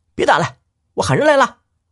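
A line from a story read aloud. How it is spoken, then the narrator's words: Shouting. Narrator (Chinese): 他这一喊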